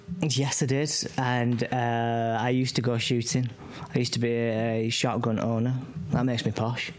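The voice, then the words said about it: Rochdale Northern English accent. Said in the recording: “this accent being from Rochdale”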